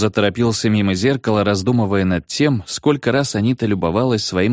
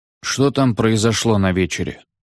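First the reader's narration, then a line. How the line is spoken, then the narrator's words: Sleepy. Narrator (Russian): спросил клерк сонно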